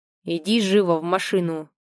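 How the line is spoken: Rough after brief hesitation. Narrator (Russian): Произношу грубо, поборов секундное замешательство

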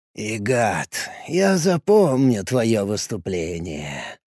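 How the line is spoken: Mumbled. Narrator (Russian): пробормотал Гоин

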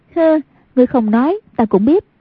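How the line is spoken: Charming, smiling. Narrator (Vietnamese): Hoàng Dung duyên dáng mỉm cười nói

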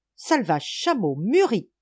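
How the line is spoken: Yelled. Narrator (French): hurlait-il

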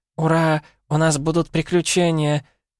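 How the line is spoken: Purring. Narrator (Russian): Промурлыкала Эрго

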